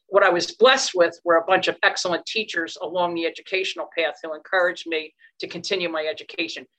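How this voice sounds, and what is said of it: Philadelphia accent. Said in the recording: “you have a Philadelphia accent. I say, yes, I have to admit to having one”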